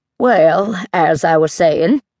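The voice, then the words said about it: Wobbly voice. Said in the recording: “in a wobbly voice.”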